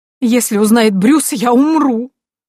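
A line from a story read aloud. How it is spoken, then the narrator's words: Sudden loud sob. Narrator (Russian): вдруг громко всхлипнула свекровь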